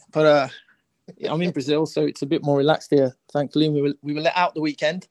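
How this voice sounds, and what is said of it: Birmingham (Brummie) English accent. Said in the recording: “the Birmingham accent ... I'm actually trying to sound more brummy”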